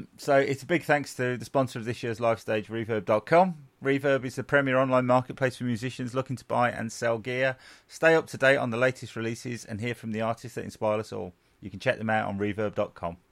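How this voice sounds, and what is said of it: Commercial radio announcer voice. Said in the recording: “You are getting a radio voice. ... You are getting a commercial radio voice.”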